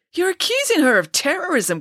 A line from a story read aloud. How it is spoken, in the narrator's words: cried Ian, incredulously